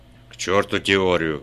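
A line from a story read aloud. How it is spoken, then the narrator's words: Barked. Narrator (Russian): рявкнул Кремер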